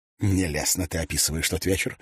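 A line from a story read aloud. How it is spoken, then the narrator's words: Plain. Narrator (Russian): сказал Тидженс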